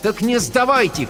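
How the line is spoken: Shouting. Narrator (Russian): крикнула я

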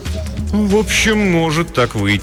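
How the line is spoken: Uncertain reply. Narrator (Russian): ответил он неуверенно

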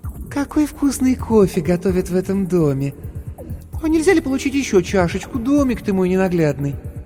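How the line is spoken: Sugary cloying voice. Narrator (Russian): сказала приторно-умильным голосом

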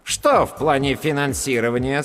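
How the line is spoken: Stern question. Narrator (Russian): строго спросила первая голова

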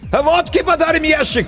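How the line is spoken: Distant shout. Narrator (Russian): крикнули оттуда

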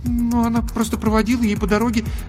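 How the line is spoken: Embarrassed babbling. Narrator (Russian): залепетала Даша, сама понимая, как глупо и смешно выглядит ее ложь

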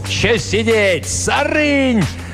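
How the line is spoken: Cut-off shout. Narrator (Russian): не успел он крикнуть свою

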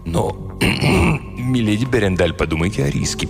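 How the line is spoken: Mumbled. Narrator (Russian): пробормотал он

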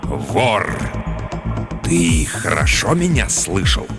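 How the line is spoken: Sinister hiss. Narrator (Russian): Раздалось зловещее шипение

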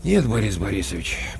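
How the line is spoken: Said with a sigh. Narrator (Russian): почему-то вздохнув, сказал Коля Краноухов

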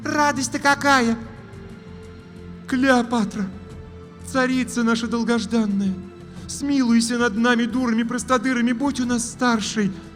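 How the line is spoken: Pleading witch. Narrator (Russian): Взмолилась третья ведьма

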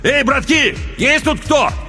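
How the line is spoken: Shouting into the dark. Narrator (Russian): крикнул в темноту

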